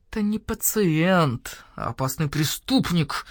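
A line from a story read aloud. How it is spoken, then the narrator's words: Through gritted teeth. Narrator (Russian): процедил сквозь зубы барсукот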